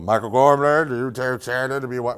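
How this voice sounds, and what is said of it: Imitates another person's voice. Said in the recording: “That was a good impression of him.”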